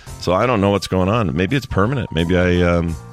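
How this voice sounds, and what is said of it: Unusually deep, strained voice. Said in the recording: “My voice won't fix. It's still weird. ... get in these low registers if you guys need something way down”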